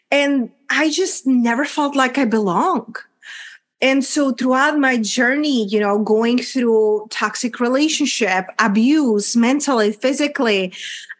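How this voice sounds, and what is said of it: Czech accent. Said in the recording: “a little small country, Czech Republic, hence my accent”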